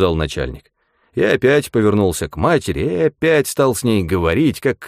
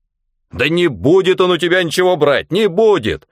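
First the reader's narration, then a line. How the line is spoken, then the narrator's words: Shouting. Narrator (Russian): уже кричал начальник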